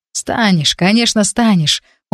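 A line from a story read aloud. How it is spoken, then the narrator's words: Tired, smiling tone. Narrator (Russian): устало улыбнулся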